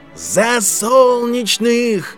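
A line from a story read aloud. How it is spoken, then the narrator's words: Crowd yelling. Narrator (Russian): заорали солдаты обеих армий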